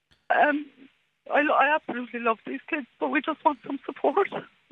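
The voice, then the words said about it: Emotional, voice close to tears. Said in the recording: “it's made me a little bit emotional.”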